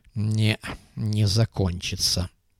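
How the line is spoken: Grumbling. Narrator (Russian): проворчал Муха

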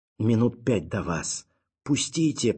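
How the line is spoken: Terrified hoarse croak. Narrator (Russian): прохрипел перепуганный гуру

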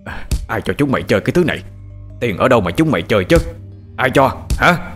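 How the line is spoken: Angry shouting. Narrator (Vietnamese): ông Tần quát lên

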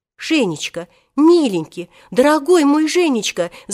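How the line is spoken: Babbling into phone. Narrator (Russian): залепетала тогда Татьяна Ивановна в трубку

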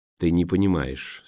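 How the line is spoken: Plain. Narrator (Russian): сказал Дурайт

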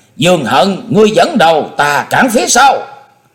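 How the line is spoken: Calling out. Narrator (Vietnamese): Na Khâm kêu lên

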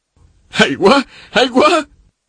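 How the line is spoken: Exclaiming. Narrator (Vietnamese): la lên

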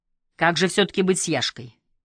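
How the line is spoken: Stern question. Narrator (Russian): строго спросил

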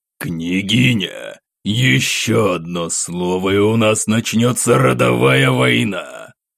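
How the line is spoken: Growling. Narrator (Russian): прорычал Светлов

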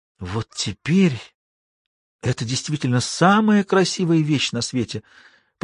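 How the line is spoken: Whisper. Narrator (Russian): прошептала Шула

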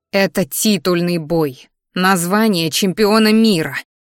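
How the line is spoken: Through gritted teeth. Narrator (Russian): процедила сквозь зубы я

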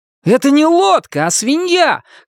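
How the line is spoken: Shouting. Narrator (Russian): крикнул он

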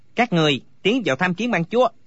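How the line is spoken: Barked command. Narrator (Vietnamese): Phó Hưng Chủ quát bảo

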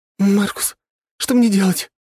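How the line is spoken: Slightly panicked question. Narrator (Russian): слегка паникующим голосом спросила Валерия

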